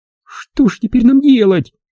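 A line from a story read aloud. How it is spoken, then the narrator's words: Tearful question. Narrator (Russian): Спросила она сквозь слезы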